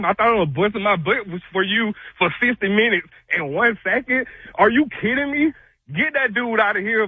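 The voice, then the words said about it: Out of breath, heated. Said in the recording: “I can tell ... out of breath. ... Yeah, ... is out of breath.”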